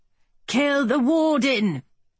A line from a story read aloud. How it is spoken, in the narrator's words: the Briton shouted